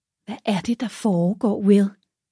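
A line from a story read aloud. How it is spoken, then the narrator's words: Cautious question. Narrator (Danish): spurgte hun forsigtigt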